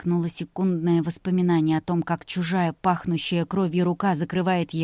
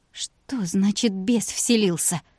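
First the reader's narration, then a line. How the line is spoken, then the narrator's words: Moaned. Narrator (Russian): простонала Вика, в самом деле ничего такого не припоминая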